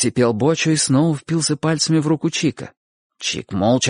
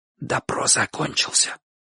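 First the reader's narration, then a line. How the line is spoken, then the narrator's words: Whisper. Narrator (Russian): шепнул Бочо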